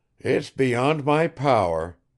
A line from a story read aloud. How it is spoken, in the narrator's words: exclaimed Nikolai Petrovich several times in despair